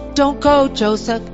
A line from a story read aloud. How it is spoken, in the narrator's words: Wally called out